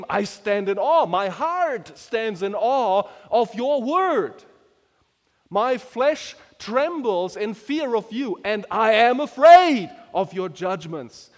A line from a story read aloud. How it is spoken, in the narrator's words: the psalmist used to exclaim